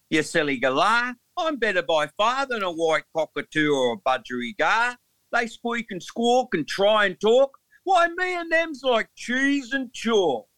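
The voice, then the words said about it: Put-on Australian accent. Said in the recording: “with the Australian accent. ... I'm an Englishman, so I find amusement in speaking like this.”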